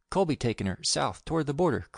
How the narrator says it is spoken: cried Grift

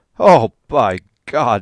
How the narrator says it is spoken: he cried

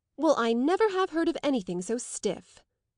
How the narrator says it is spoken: Henrietta exclaimed

